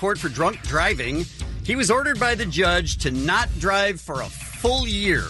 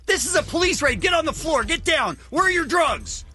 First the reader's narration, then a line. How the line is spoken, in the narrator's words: screaming